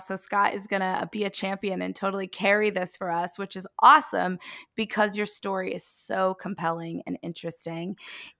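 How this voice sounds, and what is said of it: Strained voice, losing voice. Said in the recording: “I am I am losing my voice. I know I sound a little crazy right now.”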